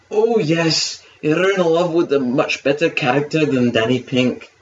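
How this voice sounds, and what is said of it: Put-on Scottish accent. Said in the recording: “That's my Scottish accent”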